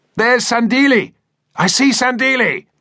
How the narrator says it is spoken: An officer on the flank suddenly shouted

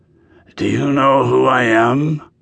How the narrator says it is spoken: he said in a raspy voice

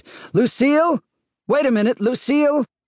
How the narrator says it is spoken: Andrew's voice shouted

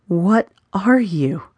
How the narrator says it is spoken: whimpered

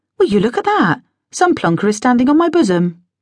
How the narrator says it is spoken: exclaimed blearily

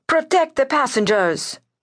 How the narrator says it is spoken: Theophanes shouted at his crew

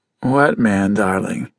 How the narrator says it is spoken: Judd asked, sleepily

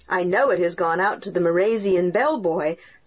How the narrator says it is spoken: said Dick with a chuckle

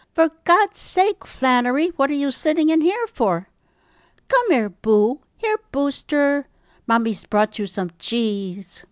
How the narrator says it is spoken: Olive exclaiming

